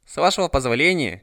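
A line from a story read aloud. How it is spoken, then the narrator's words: Almost condescending repetition. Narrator (Russian): чуть ли не свысока повторил ее Лори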